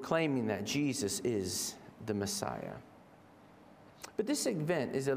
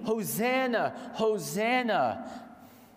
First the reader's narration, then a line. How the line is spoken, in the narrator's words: they're shouting out from Psalm 118, proclaiming